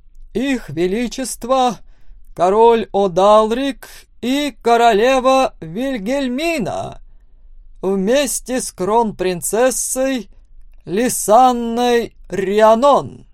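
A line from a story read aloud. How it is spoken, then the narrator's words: Loud announcement. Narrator (Russian): громко объявил мастер церемоний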